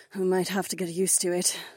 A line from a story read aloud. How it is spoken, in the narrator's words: Kat sighed